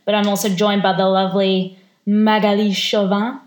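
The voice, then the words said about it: Put-on French accent. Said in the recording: “That was my best French accent then.”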